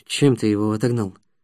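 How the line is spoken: Hushed question. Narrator (Russian): вполголоса спросил он

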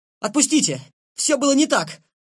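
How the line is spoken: Sudden shout. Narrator (Russian): крикнул вдруг Лен

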